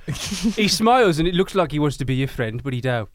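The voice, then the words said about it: Birmingham accent. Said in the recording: “Is this the Birmingham accent?”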